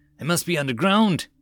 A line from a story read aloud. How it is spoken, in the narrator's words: Tyria exclaimed